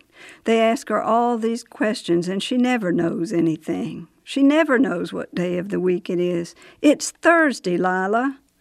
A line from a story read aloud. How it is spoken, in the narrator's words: she shouted to Miss Lila